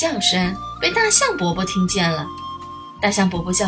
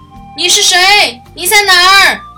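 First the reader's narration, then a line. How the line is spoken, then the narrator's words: Shouting. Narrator (Chinese): 这喊声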